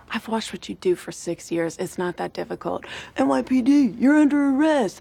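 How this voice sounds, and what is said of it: Imitates another person's voice. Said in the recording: “That was clearly an impression of Charles.”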